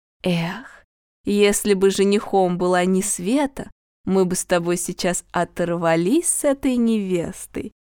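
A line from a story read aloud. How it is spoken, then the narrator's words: Dreamy sigh. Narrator (Russian): мечтательно вздохнула Роза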